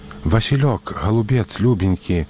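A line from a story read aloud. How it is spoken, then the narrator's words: Struggling whisper. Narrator (Belarusian): шаптала яна, трудна вымаўляючы словы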